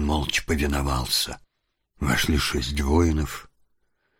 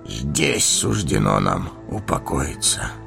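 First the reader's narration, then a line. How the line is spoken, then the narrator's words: Hollow, muffled voice. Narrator (Russian): глухо проговорил Денетор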